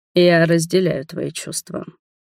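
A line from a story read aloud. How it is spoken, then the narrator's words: Quiet, tense. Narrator (Russian): стиснув желваки, тихо проговорил Адельхард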